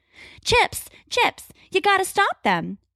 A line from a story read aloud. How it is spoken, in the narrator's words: she yells